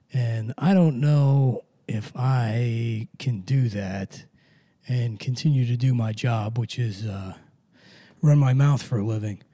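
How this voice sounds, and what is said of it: Deep gravelly laryngitis-affected voice. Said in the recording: “trying to dial in the Alec Baldwin voice while I still have it. I'm hoping this isn't permanent ... laryngitis ... it's slipping further away. I'm becoming more Winnie the Pooh, less Alec Baldwin every minute.”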